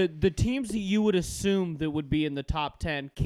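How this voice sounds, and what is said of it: Usual voice. Nothing is said of it.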